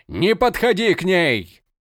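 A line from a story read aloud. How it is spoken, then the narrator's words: Shouted. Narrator (Russian): закричал друид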